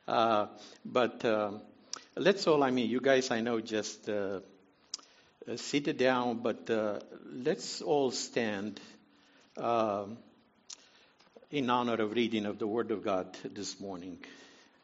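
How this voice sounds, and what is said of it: Noticeable non-native accent. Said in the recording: “somebody with a funny accent or something like that. I hope you can understand me.”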